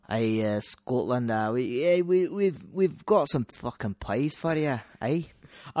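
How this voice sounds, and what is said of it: Put-on Scottish accent. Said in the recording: “Scottish accent, please”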